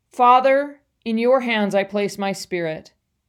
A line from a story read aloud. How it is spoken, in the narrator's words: Jesus cried out in a loud voice